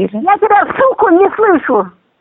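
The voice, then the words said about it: Angry shouting. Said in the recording (Russian): “Кричите, пожалуйста... пожалуйста, не кричите”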